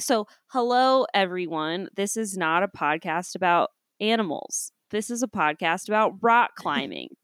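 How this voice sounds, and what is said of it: Weird put-on voice. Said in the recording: “we're leaning into the weird voice today”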